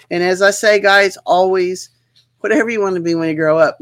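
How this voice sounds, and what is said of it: Hoarse, failing voice. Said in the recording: “my voice, sorry guys ... I'm losing my voice.”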